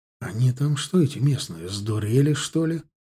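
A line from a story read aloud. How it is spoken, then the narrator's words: Whispered to himself. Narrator (Russian): Прошептал сам себе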